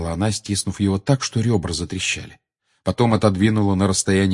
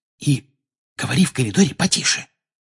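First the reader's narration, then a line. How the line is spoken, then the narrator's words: Excited whisper. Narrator (Russian): добавила все тем же возбужденным шепотом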